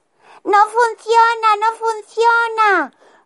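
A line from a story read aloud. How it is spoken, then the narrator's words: Moaning, nearly sobbing. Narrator (Spanish): gimió la desdichada, casi sollozando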